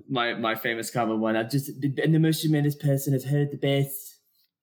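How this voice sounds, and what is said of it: Imitates another person's voice. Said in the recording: “my Trump impersonation”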